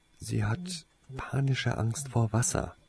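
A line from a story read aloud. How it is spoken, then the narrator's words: Quiet explanation. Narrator (German): erklärte Tase ihn leise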